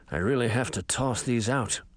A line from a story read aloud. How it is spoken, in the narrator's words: he mumbled